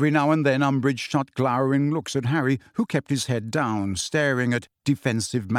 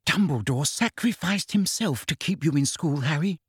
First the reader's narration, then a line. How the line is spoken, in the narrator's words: whispered Hermione